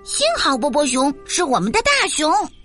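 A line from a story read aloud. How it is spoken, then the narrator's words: Happy shouting. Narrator (Chinese): 他们高兴的喊道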